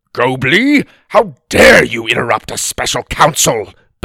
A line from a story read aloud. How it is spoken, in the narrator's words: Bursley snapped